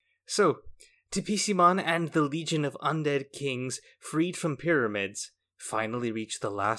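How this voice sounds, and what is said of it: Usual voice. Nothing is said of it.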